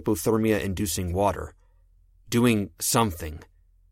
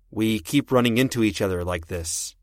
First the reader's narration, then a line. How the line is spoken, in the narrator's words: I said